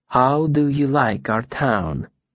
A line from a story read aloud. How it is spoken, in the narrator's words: she said quietly